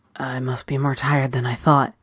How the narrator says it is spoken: Joey breathed, finally finding his voice

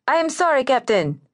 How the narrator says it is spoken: the man replied, shouting as the wind carried away his words

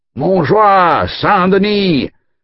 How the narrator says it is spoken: the men-at-arms bellowed their challenge

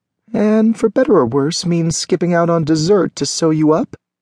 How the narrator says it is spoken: asked teasingly

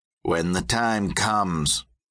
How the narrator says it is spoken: he growled

